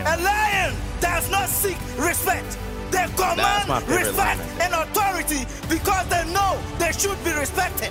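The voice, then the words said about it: African-accented English. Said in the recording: “I think this guy is from some country in Africa. Because I'm picking up on the accent. ... That's definitely from Africa, bro.”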